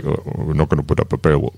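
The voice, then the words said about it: Attempted Serbian accent, sounding Indian. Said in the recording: “that came out more Indian than Serbian ... It was trying to do a Serbian accent, but it came out more Indian.”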